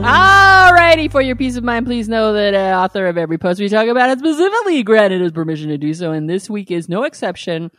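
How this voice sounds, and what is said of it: Game show announcer voice. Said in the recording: “your game show announcer voice ... my Monty Hall voice”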